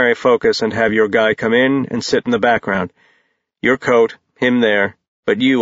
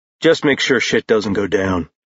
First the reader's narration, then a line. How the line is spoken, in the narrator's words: Jace said in a dry tone